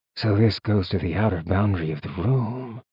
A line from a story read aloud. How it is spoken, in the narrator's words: Zeal murmured